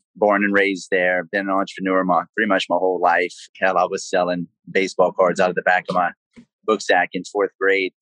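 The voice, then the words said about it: South Louisiana Cajun accent. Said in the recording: “my South Louisiana accent, I'm from Cajun country”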